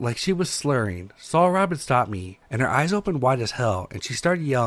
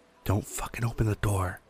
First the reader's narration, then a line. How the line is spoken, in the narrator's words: whispering